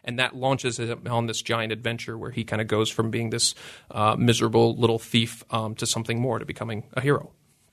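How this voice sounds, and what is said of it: Canadian accent. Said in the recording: “as some folks might be able to tell from your accent, that you're from Canada and it turns out Vancouver”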